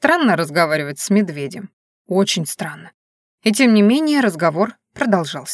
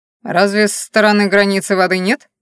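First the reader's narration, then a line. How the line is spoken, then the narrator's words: Skeptical snort. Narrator (Russian): хмыкнул он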